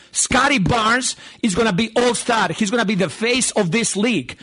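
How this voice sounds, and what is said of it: Speaks with a distinctive foreign accent. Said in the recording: “I love that accent”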